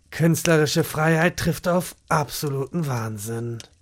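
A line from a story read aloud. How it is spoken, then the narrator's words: Murmured. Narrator (German): murmelte Jochen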